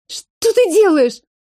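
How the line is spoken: Shrieked. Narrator (Russian): Взвизгнула Лида

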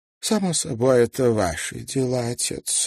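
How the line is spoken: Lazy drawl. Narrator (Russian): лениво проговорила миссис Саттертвейт

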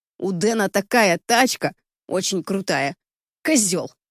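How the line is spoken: Angry exhale. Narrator (Russian): зло выдыхает

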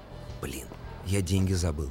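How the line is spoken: Mumbled. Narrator (Russian): пробормотал я

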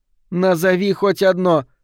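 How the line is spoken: Irritated snap. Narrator (Russian): раздраженно бросила Фиона

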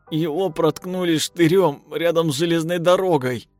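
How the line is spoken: Sobbing, breaking into tears. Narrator (Russian): всхлипывая, сказал Шнурок и расплакался

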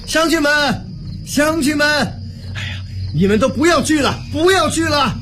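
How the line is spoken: Loud shout. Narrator (Chinese): 刘瑾……高声喊道

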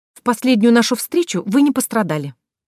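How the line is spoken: Mock-indignant blurt, smiling. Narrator (Russian): наигранно возмущенно выпаливаю, улыбнувшись

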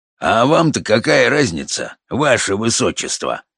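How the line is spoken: Rude. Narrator (Russian): грубо откликнулся он

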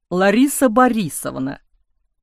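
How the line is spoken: Nervous giggle, abrupt stop. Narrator (Russian): Почувствовав, что срывается на нервное хихиканье, он резко замолчал

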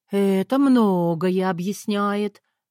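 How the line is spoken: Drawling. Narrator (Russian): протянула я

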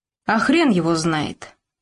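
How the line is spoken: Rough, spat out. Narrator (Russian): грубо плюнул один из ментов

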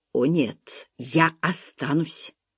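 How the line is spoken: Muttered. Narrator (Russian): пробормотал Джем

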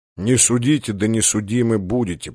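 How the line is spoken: Mumbling. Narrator (Russian): пробормотал Мичман

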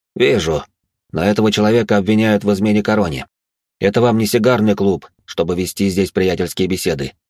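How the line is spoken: Rather rude. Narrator (Russian): довольно грубо произнес ледяной маг

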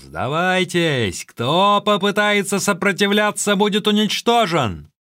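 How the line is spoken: Shout. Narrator (Russian): Цао-Джен кричал

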